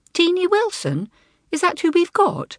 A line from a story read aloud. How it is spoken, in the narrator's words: asked Elizabeth cheerfully